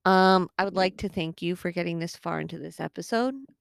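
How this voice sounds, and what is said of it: Slightly hoarse voice. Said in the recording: “my voice sounds a little hoarse.”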